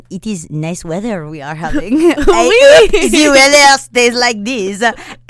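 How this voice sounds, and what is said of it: Bad put-on French accent. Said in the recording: “my terrible French accent”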